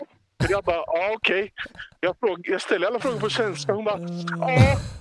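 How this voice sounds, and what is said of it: Usual voice. Nothing is said of it.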